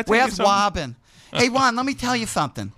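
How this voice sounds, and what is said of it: Lisping imitation of another person's voice. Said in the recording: “I'm missing a tooth ... I sound like Mike Tyson ... That's what I've been sounding like lately.”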